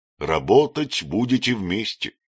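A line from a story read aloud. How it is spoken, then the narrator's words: Plain. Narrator (Russian): сказал Троил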